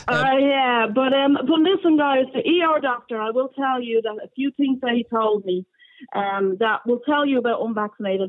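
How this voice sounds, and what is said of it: Dublin Crumlin Irish accent. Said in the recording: “You sound like a Crumlin girl as well.”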